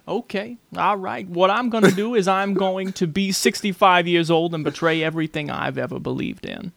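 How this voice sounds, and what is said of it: Imitates another person's voice. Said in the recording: “that really good impression of Denzel ... Do you have a little bit of a Denzel?”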